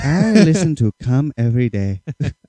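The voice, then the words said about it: Put-on Ghanaian accent. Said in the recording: “A guy from like Ghana... That's a good accent... That's really good... I think it's bad.”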